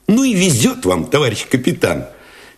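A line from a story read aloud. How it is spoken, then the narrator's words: Cheerful, admiring exclamation. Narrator (Russian): Весело, даже восхищенно воскликнул Алешин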